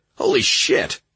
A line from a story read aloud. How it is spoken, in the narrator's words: Josh exclaimed